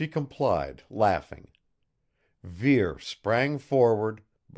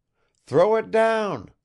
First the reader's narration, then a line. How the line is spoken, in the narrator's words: I begged, startled into excitement